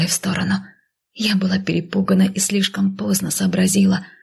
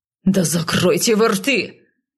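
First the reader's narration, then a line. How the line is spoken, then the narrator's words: Barked. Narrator (Russian): рявкнул северянин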